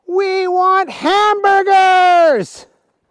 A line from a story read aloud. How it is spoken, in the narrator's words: they yelled